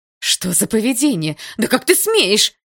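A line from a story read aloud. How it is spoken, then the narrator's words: Shouting over another voice. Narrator (Russian): закричала одновременно с ним Атом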